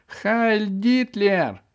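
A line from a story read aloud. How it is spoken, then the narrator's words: Frantic screaming. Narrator (Russian): истошно кричал Демочка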